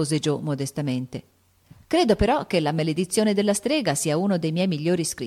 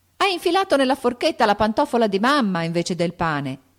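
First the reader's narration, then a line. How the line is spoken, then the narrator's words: Shouted. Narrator (Italian): gridò Meg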